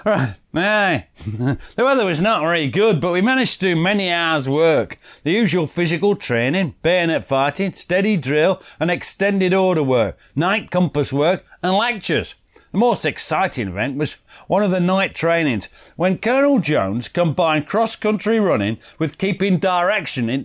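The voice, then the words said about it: Put-on Leicestershire accent reading. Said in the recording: “the accent for Leicestershire”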